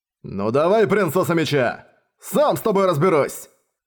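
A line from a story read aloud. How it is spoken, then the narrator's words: Roaring. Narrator (Russian): Арес взревел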